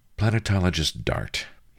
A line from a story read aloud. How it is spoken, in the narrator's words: sighed